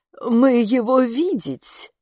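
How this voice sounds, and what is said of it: Foreign-accented character voice. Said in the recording (Russian): “с иностранным акцентом”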